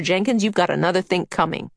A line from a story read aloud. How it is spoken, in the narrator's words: Meg snapped